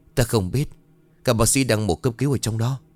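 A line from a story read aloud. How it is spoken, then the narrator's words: Trembling reply. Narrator (Vietnamese): run rẩy đáp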